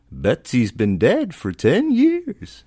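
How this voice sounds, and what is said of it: Old lady voice. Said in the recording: “my old lady impression ... I think I nailed it”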